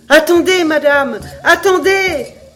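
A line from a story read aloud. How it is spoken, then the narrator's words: Shouting, calling out. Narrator (French): criait la gamme en interpellant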